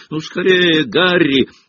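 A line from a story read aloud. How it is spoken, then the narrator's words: Shout. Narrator (Russian): крикнул подоспевший Джордж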